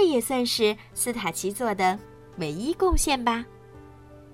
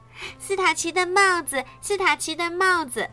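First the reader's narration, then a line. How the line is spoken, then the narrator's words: Children crying out. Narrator (Chinese): 后来的孩子们呀，就会叫道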